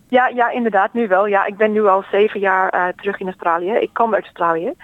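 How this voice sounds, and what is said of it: Dutch with English-Australian accent. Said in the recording (Dutch): “je spreekt Nederlands met een accent. Met een Engels-Australisch accent”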